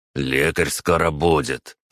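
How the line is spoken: Through gritted teeth, commander. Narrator (Russian): процедил командир пятерки

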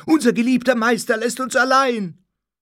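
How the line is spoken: Many voices shouting together. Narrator (German): schrie alles durcheinander

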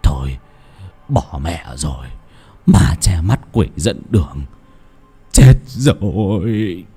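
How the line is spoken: Anxious mutter. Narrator (Vietnamese): Trong lòng chột dạ, lão lẩm bẩm

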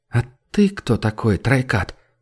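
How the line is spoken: Quiet question. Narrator (Russian): тихо спросила Терра

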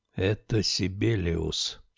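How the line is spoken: Barely audible. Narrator (Russian): чуть слышно произнес

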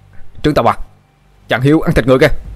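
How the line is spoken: Shouting. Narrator (Vietnamese): Một tên thần tài hét lên

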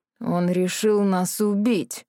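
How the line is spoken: Groaning. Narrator (Russian): простонал Морис

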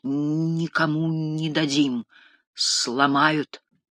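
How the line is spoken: Heavy stammering. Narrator (Russian): Младший говорил, заикаясь сильнее обычного

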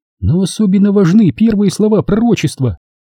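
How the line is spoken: Plain. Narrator (Russian): сказала Рен

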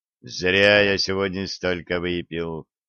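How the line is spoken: Quiet self-reproach. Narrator (Russian): негромко укорил себя Олег

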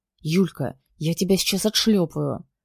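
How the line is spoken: Growling into ear. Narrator (Russian): прорычал мне на ухо

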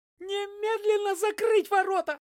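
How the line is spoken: Shrill alarmed shout. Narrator (Russian): визгливо закричал комендант, когда понял, что впустили не тех, кого хотели

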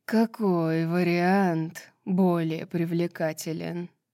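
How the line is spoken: Musing aloud. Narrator (Russian): Король подземья, словно рассуждая вслух

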